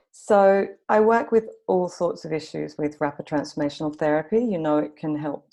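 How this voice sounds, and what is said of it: Mixed Australian accent. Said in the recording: “you can probably tell from my kind of messed up accent that I'm Australian. I've also lived in London for about 9 years”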